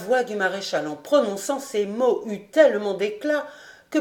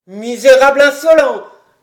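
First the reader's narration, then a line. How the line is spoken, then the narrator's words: Furious yelling. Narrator (French): hurla Daumont hors de lui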